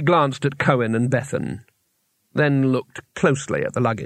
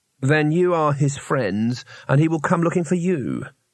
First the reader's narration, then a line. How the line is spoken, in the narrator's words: said Herenna